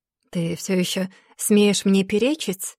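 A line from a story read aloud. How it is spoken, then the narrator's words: Mocking retort. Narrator (Russian): Насмешливо бросает Аид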